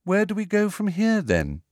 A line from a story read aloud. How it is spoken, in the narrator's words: she asked Harry in a politely interested voice, as though this was all a rather interesting day trip